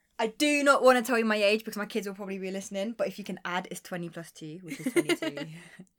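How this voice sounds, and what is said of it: Strong regional accent. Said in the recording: “the very strong accent”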